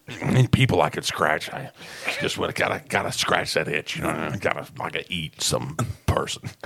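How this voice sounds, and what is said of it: Slurred, drooling character voice. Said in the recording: “he's slurring his words”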